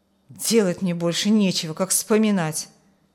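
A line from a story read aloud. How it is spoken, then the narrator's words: Muttered. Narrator (Russian): буркнул Петр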